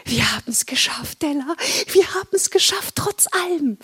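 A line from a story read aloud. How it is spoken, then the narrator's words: Whisper. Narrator (German): flüsterte sie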